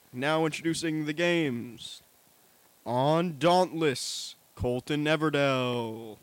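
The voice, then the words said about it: Big announcer voice. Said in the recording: “doing the big announcer voice”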